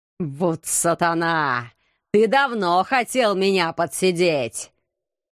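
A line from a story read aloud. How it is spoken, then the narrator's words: Hateful hiss. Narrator (Russian): С ненавистью прошипел магистр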